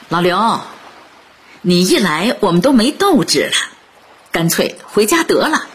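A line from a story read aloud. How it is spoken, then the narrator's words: Joking. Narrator (Chinese): 老友开玩笑的说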